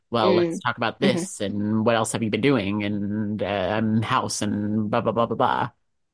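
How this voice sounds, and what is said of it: Imitates another person's voice. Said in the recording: “That's your impression?”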